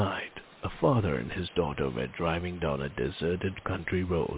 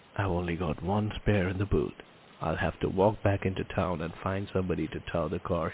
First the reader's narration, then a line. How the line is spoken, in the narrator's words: he said